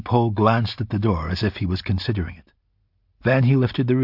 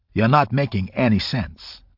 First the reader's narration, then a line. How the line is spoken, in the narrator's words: the lawyer said curtly